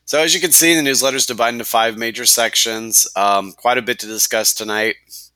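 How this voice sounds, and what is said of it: Congested, stuffed-up voice. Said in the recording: “you can probably tell I have a cold tonight. A little hard to understand me. Pretty stuffed up here.”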